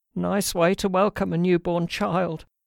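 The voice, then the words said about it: Weak, querulous whining old voice. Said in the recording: “replied the querulous whine ... he complained in a weak voice”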